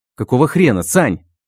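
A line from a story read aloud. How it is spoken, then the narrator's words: Barked. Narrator (Russian): рявкнул я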